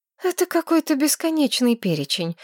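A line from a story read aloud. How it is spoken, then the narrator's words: Sighing. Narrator (Russian): вздохнула Маргарет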